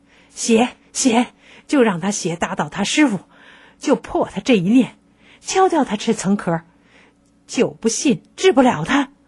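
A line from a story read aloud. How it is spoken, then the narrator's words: Panting shout. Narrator (Chinese): 喘着粗气叫道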